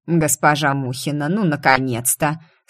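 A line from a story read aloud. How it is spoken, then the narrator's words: Grumpy rattling voice. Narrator (Russian): Сварливым дребезжащим голосом приветствовал он меня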